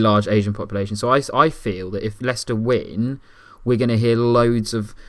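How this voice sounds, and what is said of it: Usual voice. Nothing is said of it.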